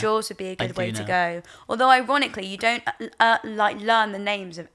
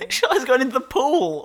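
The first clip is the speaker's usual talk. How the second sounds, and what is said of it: Bad put-on American accent. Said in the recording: “That was a terrible American accent.”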